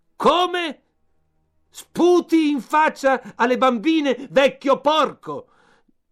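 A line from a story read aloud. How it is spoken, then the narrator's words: Angry red-faced shout. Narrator (Italian): Tutto rosso in viso, gridò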